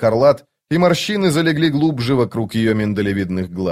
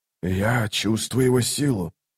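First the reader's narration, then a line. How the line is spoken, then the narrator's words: Whisper. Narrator (Russian): прошептал Орфантал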